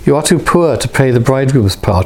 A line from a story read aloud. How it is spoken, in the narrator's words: she said